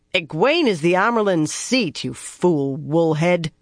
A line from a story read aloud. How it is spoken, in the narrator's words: she growled